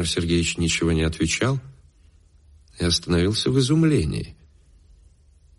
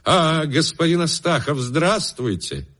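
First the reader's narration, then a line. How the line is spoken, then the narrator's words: Sudden exclamation. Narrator (Russian): вдруг воскликнул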